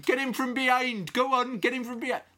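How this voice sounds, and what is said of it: Shouted West Country accent imitation. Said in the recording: “I think he was from Cornwall, of that kind of area ... he used to shout, like, encouragement”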